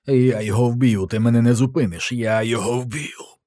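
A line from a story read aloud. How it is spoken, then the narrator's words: Hoarse rasp. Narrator (Ukrainian): прохрипів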